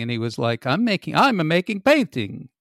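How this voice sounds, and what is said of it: Put-on Italian accent. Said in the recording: “that Italian accent”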